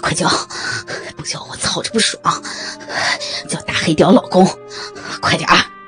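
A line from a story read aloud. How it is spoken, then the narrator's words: Panting. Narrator (Chinese): 宝哥喘息着说道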